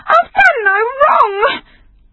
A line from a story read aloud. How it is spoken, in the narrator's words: She cried again